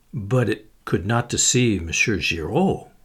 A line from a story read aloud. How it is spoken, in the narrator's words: murmured Poirot